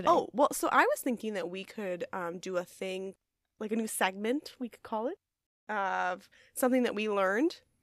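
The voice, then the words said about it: Voice still sounds a bit sick. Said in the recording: “I was sick. I'm all better now. You can probably hear it in my voice.”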